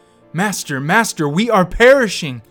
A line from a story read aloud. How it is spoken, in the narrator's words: screaming